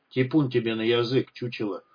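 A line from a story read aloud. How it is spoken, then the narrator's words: Grumbled. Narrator (Russian): проворчал Хемуль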